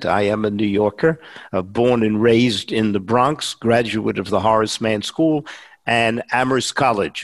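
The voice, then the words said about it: New York Bronx accent. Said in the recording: “his distinctive Bronx accent gives him away... You can tell by my accent”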